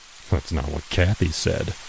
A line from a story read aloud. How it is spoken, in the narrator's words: he muttered